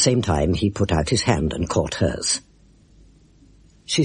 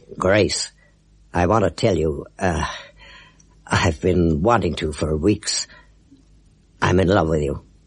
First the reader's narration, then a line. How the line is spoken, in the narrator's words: he said, his voice shaking a little